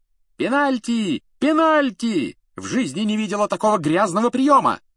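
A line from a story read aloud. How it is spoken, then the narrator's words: Shout. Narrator (Russian): закричала мадам Трюк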